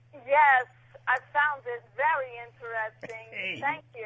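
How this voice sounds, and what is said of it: British accent like Dick Van Dyke. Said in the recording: “have a British accent ... She's sounding more Dick Van Dyke with every call.”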